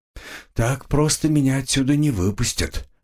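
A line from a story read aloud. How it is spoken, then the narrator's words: Sighing. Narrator (Russian): вздохнул я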